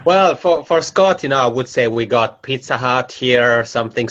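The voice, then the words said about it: Italian-Swiss accented English. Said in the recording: “I'm originally from the Italian-speaking part of Switzerland, so that's where my macaroni accent comes from”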